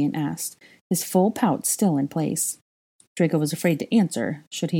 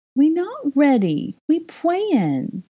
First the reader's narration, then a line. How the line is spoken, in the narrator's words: Aurelian whined